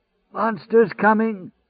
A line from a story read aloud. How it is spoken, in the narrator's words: the faint hoarse voice cried